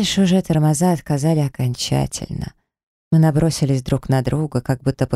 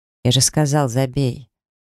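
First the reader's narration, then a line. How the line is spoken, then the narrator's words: Curt growl. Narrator (Russian): рыкнул, как отрезал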